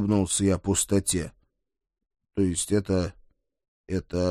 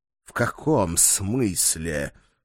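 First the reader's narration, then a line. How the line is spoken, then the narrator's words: Dog-like snort. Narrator (Russian): по-собачьи фыркнул он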